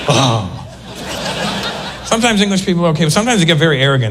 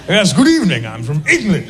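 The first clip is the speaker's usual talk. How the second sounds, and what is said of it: Mock posh English accent. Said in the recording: “I like the English accent sometimes ... it's the only accent in the world you can't do without making a ridiculous face every time you do it”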